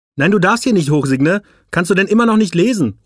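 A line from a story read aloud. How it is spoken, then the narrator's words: Calling. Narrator (German): ruft das Problem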